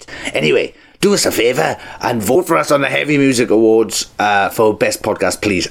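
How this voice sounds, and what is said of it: Weird put-on voice. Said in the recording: “I don't know why I'm still in this weird voice. I can't seem to get out.”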